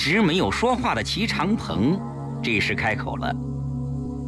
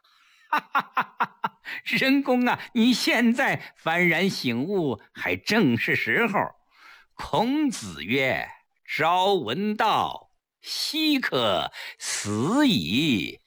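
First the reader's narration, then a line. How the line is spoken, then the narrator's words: Hearty laughter. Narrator (Chinese): 柳亚子开怀大笑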